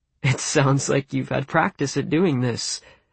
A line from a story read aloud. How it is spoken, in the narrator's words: I said, laughing